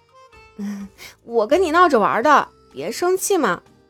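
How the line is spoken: Ingratiating, coaxing. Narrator (Chinese): 又扯出一抹讨好的笑容，说道

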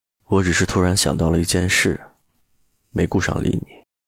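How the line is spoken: Flat and calm. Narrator (Chinese): 陆漠北淡淡道

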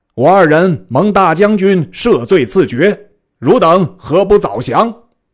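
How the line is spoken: Loud shout. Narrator (Chinese): 大叫曰

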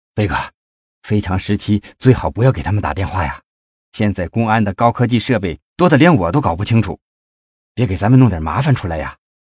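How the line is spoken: Miserable sigh. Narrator (Chinese): 费庆奇惨然的叹了一口气

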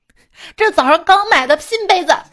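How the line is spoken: Furious. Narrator (Chinese): 我妈在旁边暴怒

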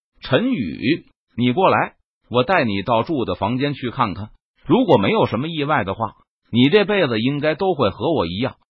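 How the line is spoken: Hearty laugh. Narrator (Chinese): 王博…哈哈一笑，道

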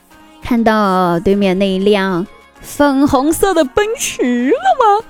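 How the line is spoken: Smiling. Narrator (Chinese): 老爸笑了笑，说

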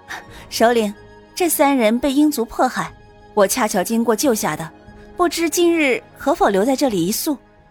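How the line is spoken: Smiling. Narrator (Chinese): 苏玲微笑

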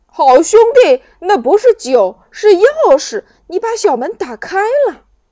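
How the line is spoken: Surprised shout. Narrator (Chinese): 橘子男爵惊讶地喊

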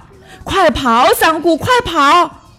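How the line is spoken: Mother shouting. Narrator (Chinese): 妈妈喊

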